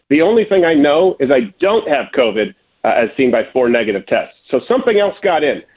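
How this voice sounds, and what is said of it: Sick, rough-sounding voice. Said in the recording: “I sound like a drug addict right now is because I'm incredibly sick”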